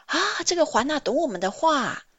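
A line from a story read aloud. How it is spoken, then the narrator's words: Surprised children's cries. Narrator (Chinese): 这些小孩子讶异地叫着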